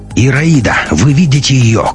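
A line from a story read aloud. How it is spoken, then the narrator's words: Shout over radio. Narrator (Russian): крикнул Матвей в эфир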